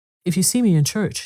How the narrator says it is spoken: she said, kindly and attentively

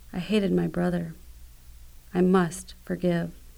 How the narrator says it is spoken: Finally, whispered

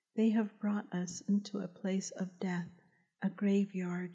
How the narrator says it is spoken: she said

